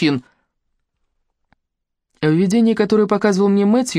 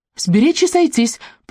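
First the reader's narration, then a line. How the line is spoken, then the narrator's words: Squeaky voice. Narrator (Russian): пропищал Мэтью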